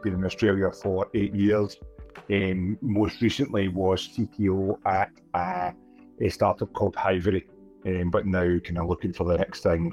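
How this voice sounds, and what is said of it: Non-Australian English accent. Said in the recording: “Not Australian, as the accent may give away.”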